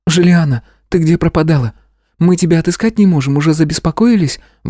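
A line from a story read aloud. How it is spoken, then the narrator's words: Exclaiming. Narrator (Russian): воскликнула Стеша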